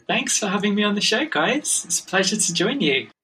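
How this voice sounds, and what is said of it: English accent. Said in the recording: “all the way from England, which everybody is immediately going to notice the lovely accent, at least lovely to us ... having an English accent. People sometimes think I'm Australian”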